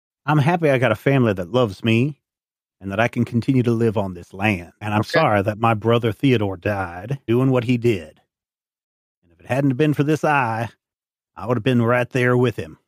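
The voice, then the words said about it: Dead serious character voice. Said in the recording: “dead serious voice”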